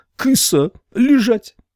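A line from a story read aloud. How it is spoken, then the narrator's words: Shout. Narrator (Russian): Еще кто-то выкрикнул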